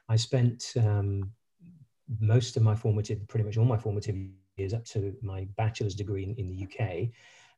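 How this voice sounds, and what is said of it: British accent. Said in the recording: “You can probably tell from my accent, I'm a British”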